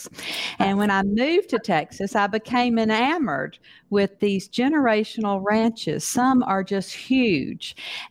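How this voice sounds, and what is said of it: Southern American accent. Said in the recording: “a Texan with a Southern accent because I grew up in Mississippi”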